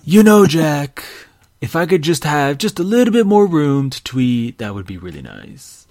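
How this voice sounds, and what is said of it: Poor Donald Trump impression. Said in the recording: “I wonder if Donald Trump requested it ... That was a terrible impression ... that's a very terrible impression”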